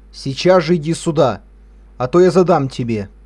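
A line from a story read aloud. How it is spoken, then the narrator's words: Stern angry shout. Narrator (Russian): еще суровее закричал отец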